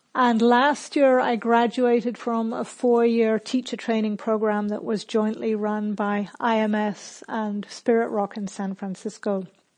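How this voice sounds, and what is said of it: Hybrid UK, Australian, New Zealand, American accent. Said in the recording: “perhaps you can hear that between spending time in the UK and Australia and New Zealand and the US, my accent is a little bit of a hybrid”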